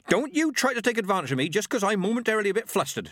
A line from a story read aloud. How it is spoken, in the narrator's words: snapped